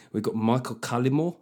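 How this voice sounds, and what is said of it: Put-on South African accent. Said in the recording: “I instinctively said that in a South African accent.”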